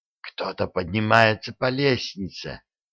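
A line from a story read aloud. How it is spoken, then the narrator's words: Whisper. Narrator (Russian): прошептала она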